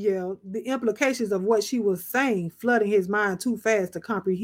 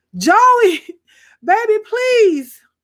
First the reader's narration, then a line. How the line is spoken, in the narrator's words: she pleaded after him